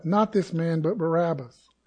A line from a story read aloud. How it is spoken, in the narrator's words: And they cried out